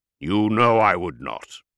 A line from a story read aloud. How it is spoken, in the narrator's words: Corlin growled